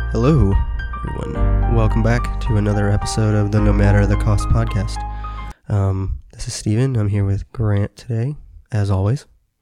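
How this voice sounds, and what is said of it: Deeper, slightly congested voice. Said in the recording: “I've been dealing with a little bit of some, cold and sinus issues, so my voice is a little bit off today. ... It sounds deeper than usual.”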